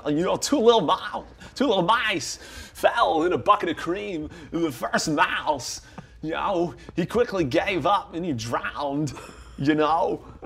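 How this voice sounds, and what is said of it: Christopher Walken impression. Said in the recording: “I did Christopher Walken's bit from Catch Me If You Can ... his Christopher Walken impression”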